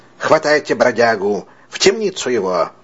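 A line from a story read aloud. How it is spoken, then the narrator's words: Commanding exclamation. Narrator (Russian): воскликнул властным голосом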